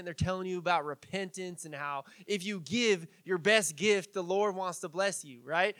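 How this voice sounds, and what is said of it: Exaggerated Southern televangelist accent. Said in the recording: “my terrible southern accent”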